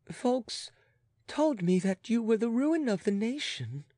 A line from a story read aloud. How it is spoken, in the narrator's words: faltered the abashed young woman